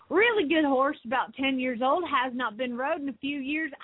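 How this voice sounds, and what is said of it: Put-on Southern accent. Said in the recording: “read this in a Southern accent”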